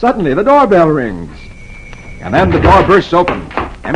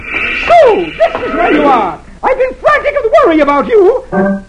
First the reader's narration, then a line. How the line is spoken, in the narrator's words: Dithers' wife dashes in, screeching